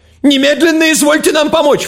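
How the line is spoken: Falsetto shout. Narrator (Russian): фальцетом закричал врач

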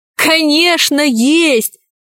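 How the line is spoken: Laughing. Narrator (Russian): рассмеялся Пашка

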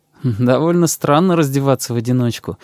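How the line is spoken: Laughing. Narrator (Russian): засмеялся я

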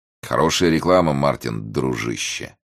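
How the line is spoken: Gloomy repetition. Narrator (Russian): мрачно повторил Бриссенден

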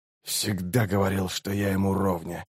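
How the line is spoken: Muttered. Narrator (Russian): пробормотал Раллик

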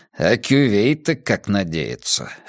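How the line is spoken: Snorting. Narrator (Russian): хмыкнул Каз

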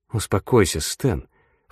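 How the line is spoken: Mumbling. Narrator (Russian): пробормотал Волоски

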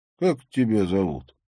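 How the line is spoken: Plain question, native. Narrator (Russian): спросил абориген

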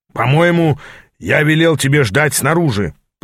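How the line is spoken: Roaring. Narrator (Russian): проревел он мне

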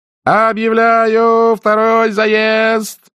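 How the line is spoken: Shouting through megaphone. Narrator (Russian): прокричал в громадный мегафон ведущий

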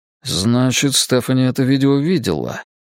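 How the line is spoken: Muttered. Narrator (Russian): пробормотал я

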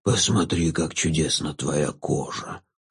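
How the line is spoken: Ghoul whispering. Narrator (Russian): зашептал упырь

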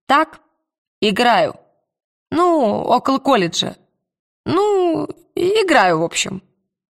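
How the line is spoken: Timid babbling. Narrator (Russian): Она пролепетала

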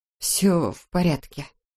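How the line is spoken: Mumbling. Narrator (Russian): пробормотала Эбби

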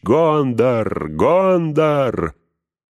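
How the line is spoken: Thunderous crowd war cry. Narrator (Russian): Крики мешались с отчаянным визгом, и разносился громозвучный клич

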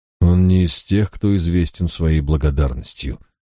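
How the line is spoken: Sad reply. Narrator (Russian): грустно ответил я

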